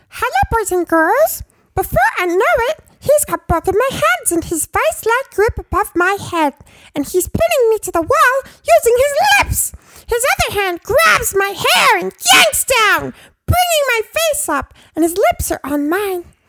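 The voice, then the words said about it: Elmo impression. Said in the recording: “I'm going to do my very best Elmo impersonation... Your famous Elmo impersonation... 50 Shades of Grey, read by Elmo”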